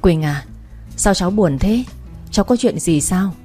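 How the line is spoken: Grandmother's concerned question. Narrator (Vietnamese): Thấy tôi buồn và hay ngồi suy nghĩ rồi thở dài, nên bà ngoại tôi hỏi

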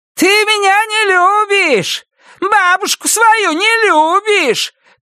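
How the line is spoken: Shouting. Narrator (Russian): кричала Ульяна

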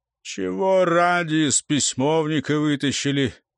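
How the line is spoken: Irritated grumble. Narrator (Russian): проворчал по обыкновению раздраженно

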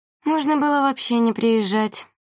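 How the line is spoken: Drawl. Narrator (Russian): протянула Вилга

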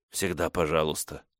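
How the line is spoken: Choked hoarse whisper. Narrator (Russian): Горло у меня перехватывает, поэтому я отвечаю хриплым шепотом

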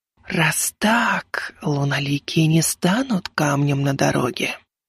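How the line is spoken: Hissed whisper. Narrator (Russian): прошипела шепот

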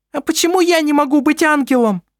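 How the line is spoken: Shrill, squealing question. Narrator (Russian): спросила Селестина своим визгливым голосом

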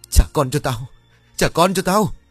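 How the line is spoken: Enraged howl. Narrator (Vietnamese): Sẵn đang trong cơn điên tiết trong người, Vân liền gào lớn

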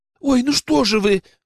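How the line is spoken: Exclaimed. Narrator (Russian): воскликнула она

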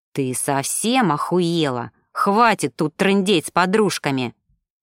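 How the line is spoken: Angry hiss. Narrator (Russian): Злобно прошипел Макс

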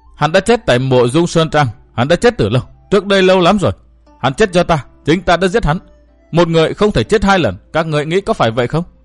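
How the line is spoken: Cackling laughter. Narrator (Vietnamese): nàng bật cười khanh khách tiếp

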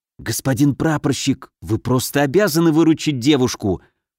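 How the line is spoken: Hissing in ear. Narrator (Russian): прошипел он мне на ухо

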